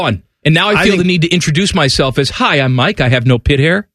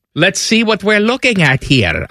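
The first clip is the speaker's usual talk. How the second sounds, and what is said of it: Put-on barber accent. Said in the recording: “I don't know what kind of accent that is. That's the barber ... accent”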